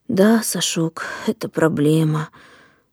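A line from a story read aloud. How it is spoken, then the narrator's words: Sighing. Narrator (Russian): вздохнул дядя Яша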